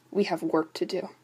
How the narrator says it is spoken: he mumbled

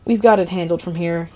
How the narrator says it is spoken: he says, and his voice is shaking

